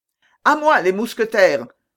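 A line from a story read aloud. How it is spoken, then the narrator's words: Exclaiming. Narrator (French): s'écria D'Artagnan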